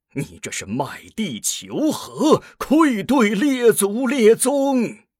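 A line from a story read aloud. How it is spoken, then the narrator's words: Angry old man. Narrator (Chinese): 另一位黑发老臣怒道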